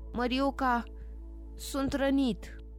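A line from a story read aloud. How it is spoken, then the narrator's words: Wounded groan. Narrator (Romanian): sergentul telefonist a gemut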